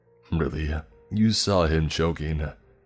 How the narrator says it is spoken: The earless one scoffed at my words

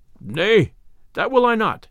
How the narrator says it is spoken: quoth the stranger roughly

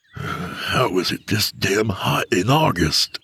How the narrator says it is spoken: he grumbled

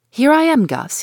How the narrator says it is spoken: cries out in his own bold, hearty voice

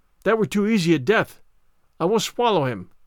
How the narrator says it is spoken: cried

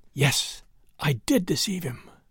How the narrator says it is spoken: She was quieter now, and putting her mouth to her husband's ear, she whispered

